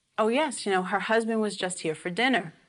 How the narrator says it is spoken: The person who picked up the phone forgot that he was supposed to tell this lie, and so he blurted out

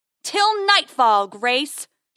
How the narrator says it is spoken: he bellows again

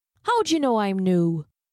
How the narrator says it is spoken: The constable chuckled

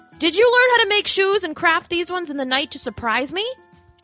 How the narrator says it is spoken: George called out to his wife

